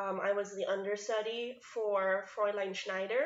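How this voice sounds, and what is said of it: Usual voice. Nothing is said of it.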